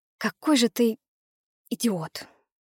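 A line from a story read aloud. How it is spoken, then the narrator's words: Weary exhale. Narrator (Russian): Устало выдохнула я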